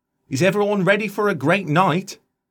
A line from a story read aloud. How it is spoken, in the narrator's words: shouted into the mic